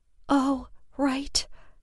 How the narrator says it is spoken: Lexi whispered, looking suddenly chagrined

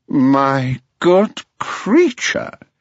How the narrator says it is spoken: cried the rocket in a very haughty tone of voice

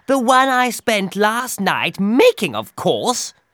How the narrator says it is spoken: replied Hare impatiently

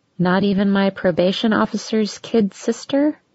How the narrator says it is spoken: He laughed

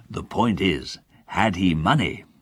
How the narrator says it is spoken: asked the doctor

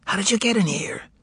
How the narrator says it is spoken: said Ivan in a whisper

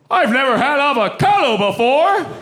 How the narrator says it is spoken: the man yelled out

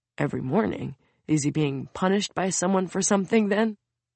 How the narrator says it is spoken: Soon mutters

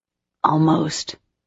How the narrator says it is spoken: Trey whispered with a crooked grin

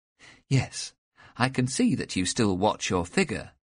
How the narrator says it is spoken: Elizabeth said with a laugh

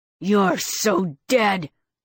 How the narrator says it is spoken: He snarled

